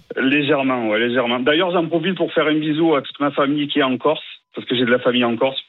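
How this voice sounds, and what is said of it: Slight southern French accent. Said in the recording (French): “Vous avez un léger accent du sud”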